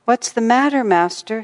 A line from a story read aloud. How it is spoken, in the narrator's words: inquired anxiously